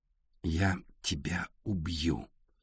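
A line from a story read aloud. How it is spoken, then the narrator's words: Very distinct whisper. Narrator (Russian): очень внятно прошептал Артур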